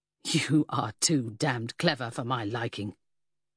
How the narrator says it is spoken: the bootmaker snarled

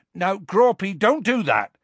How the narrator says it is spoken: shouted Hagrid

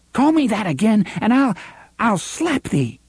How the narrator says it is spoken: Susan cried

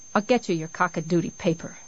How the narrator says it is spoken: she said sullenly

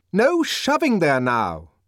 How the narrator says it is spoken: shouted the deputy sub-bursar in a fury

